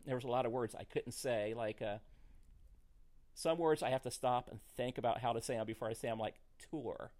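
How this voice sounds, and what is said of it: Country twang accent. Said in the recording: “You can hear that I got a twang. ... I grew up in Missouri ... we have a strong country grammar.”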